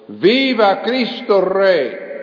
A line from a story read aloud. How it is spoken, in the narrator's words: he shouted out at the top of his voice